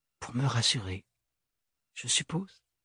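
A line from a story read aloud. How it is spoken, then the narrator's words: Murmured. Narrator (French): murmura Ophélie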